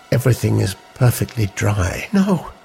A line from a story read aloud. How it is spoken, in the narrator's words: said quietly